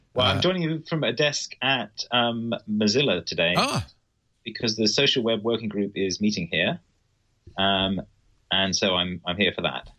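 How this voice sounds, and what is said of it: Posh British accent. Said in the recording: “the posh accent”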